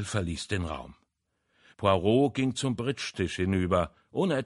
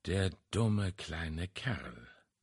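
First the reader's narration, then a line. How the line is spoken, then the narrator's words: Murmured. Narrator (German): murmelte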